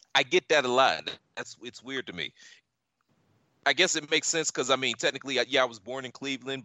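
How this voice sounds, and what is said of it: Tri-state American accent. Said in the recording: “You do sound tri-state. You sound more tri-state than Ohio.”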